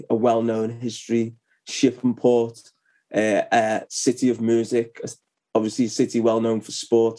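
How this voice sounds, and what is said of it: British regional accent. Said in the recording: “you got a British accent, but in England, you have so many regional accents ... your lovely accent”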